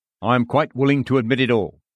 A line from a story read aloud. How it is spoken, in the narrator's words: says the devil